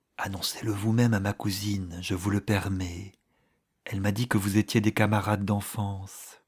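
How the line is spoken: Low, smiling voice. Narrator (French): elle ajouta, souriante, à voix basse

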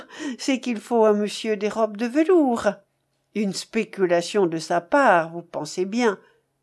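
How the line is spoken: Sneering. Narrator (French): avec un ricanement

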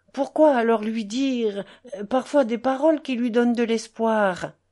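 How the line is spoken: Timid. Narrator (French): poursuivit timidement Alyosha

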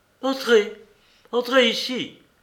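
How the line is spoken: Imperious shout. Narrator (French): cria-t-elle impérieusement

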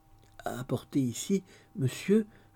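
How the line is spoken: Stammered. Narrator (French): balbutia Dolly

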